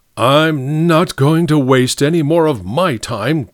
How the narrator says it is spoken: growled the large Mr

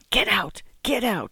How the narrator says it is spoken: the widow hissed

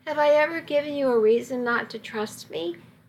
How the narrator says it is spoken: asked so quietly that I almost didn't hear him

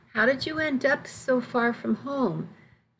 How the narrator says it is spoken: her voice gentle

